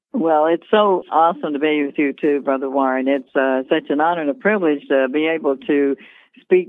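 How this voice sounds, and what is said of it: North Carolina accent. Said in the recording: “you are a transplant from North Carolina, and I think we'll hear that accent”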